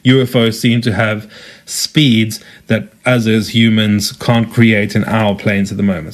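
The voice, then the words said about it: South African accent. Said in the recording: “as you can tell from my accent, I am South African”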